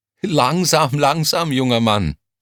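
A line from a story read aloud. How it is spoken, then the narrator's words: Laughing. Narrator (German): lachte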